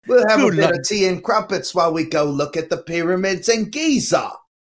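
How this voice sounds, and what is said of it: Put-on Cockney British accent. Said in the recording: “Cockney British accent”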